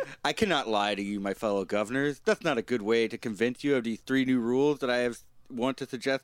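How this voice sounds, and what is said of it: Usual voice. Nothing is said of it.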